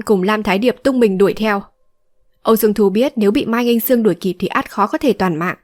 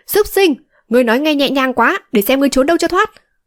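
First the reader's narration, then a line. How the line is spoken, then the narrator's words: Angry shout. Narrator (Vietnamese): Mai Nghinh Sương giận dữ quát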